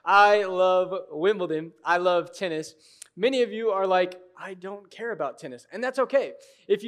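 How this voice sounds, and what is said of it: Usual voice. Nothing is said of it.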